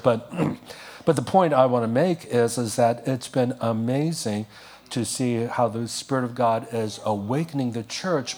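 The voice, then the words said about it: Slightly strained, worn voice. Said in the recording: “This is my third message in just less than 24 hours, so I'm losing my voice a little bit.”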